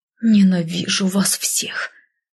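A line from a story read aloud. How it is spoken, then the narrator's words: Hissed through gritted teeth. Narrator (Russian): процедила я, осознавая, что они обо мне узнали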